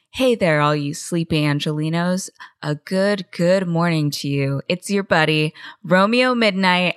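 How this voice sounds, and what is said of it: Radio DJ voice. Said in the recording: “radio voice”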